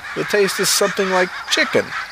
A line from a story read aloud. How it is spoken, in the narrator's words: Mavis said with a laugh